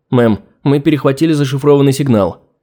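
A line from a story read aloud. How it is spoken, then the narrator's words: Officer's exclamation. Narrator (Russian): воскликнул один из сидящих за пультами офицеров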